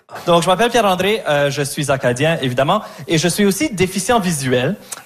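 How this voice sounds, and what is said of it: Acadian French accent, rolled R. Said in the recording (French): “l'accent. ... Je roule pas mon R parce que je viens du Nouveau-Brunswick. Je roule mon R”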